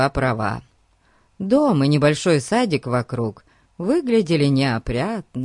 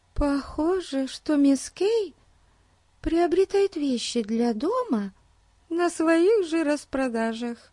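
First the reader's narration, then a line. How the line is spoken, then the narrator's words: Whisper. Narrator (Russian): прошептала Бетти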